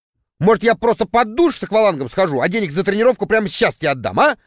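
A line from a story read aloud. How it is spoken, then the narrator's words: Irritated remark. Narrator (Russian): раздраженно заметил я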